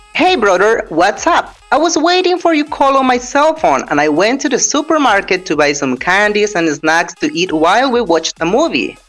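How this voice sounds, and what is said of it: Put-on American English accent. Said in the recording (Spanish): “vamos a hablar en el acento americano”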